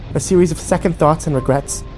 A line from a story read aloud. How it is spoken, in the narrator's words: She snapped